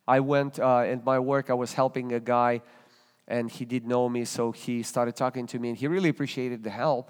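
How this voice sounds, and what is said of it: Russian accent. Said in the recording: “he detected my accent. ... I said, "From Russia."”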